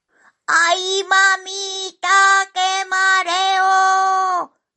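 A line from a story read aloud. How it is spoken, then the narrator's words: Shouting while tumbling downhill. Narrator (Spanish): gritaba mientras bajaba pendiente abajo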